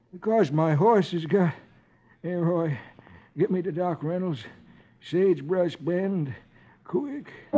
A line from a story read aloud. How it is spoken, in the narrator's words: Chubby says weakly